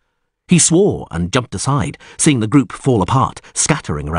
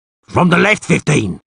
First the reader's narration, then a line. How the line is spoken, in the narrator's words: Nohorn roared